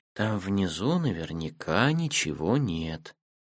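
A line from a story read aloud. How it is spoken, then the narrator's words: Sleepy voice. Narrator (Russian): Матика сонным голосом сказала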